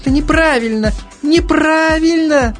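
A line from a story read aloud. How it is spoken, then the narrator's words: Moaning. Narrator (Russian): стонал Соляр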